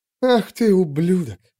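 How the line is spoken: Breathy forced submission. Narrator (Russian): выдохнула Вик, но с интонацией вынужденной покорности

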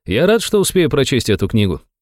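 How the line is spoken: Calm reply. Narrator (Russian): спокойно ответил дубликат

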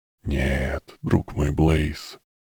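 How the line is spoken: Whispered by black mist. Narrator (Russian): прошептал черный туман

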